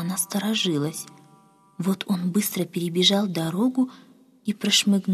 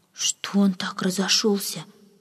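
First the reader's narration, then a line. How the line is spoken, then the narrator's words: Maid's whispered question. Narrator (Russian): шепотом спросила одна служанка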